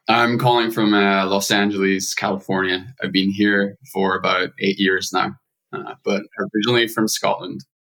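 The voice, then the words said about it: Scottish accent. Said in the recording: “that killer accent that you've got going on ... there are some Scottish tones coming through at times”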